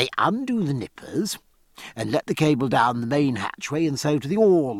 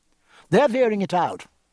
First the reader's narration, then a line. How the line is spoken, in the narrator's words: answered Martin quickly